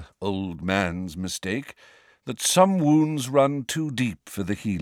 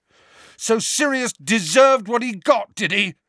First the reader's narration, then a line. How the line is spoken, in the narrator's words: Harry yelled